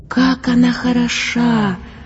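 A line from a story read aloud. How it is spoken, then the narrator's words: Rapturous young man's exhale. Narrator (Russian): Восторженно выдохнул Янус юноша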